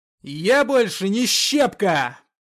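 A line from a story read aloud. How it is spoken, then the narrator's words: Shouting. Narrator (Russian): прокричал Артем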